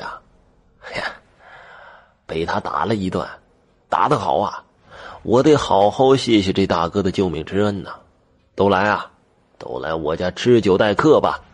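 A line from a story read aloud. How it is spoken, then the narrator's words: Cheerful grinning. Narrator (Chinese): 张二叔笑嘻嘻的说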